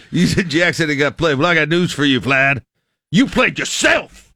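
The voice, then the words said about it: Imitates another person's voice. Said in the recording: “I don't know what impersonation this is going into”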